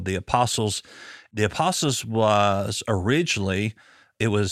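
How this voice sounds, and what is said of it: Usual voice. Nothing is said of it.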